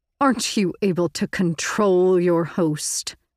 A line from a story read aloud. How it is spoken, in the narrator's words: Visser Three sneered